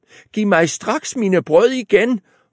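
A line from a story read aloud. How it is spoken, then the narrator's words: Woman shouting. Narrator (Danish): råbte konen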